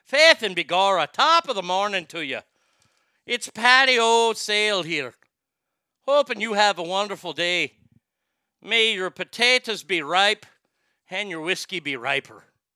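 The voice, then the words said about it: Put-on Irish accent. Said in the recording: “You always have an Irish accent ... That's how you do an Irish accent.”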